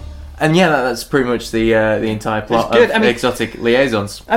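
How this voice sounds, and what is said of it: Usual voice. Nothing is said of it.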